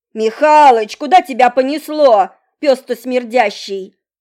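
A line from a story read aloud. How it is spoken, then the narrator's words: Shouted. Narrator (Russian): закричал второй дворник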